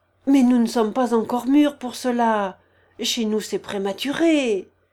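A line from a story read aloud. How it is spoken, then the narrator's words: Almost pleading voice. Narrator (French): observa-t-il d'une voix presque suppliante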